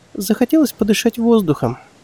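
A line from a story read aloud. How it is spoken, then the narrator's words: Sighing reply. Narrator (Russian): вздохнув, ответила женщина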